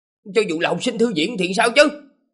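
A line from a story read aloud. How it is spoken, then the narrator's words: Loud scolding shout. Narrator (Vietnamese): lớn tiếng quát mắng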